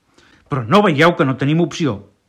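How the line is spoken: Desperate shout. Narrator (Catalan): va cridar Flor d'Espina, desesperat

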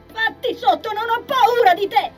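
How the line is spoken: Screaming at full breath. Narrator (Italian): urlò, con tutto il fiato che aveva in gola

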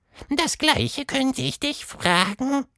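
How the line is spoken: Squeaky. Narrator (German): quiekte Quatschmonster

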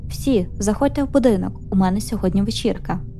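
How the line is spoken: Cheerful tone. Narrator (Ukrainian): Він каже веселим тоном

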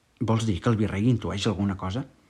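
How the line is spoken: Low voice. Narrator (Catalan): li va dir en veu baixa

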